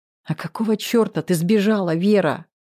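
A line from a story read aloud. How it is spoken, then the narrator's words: Hissing. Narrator (Russian): прошипел Жданов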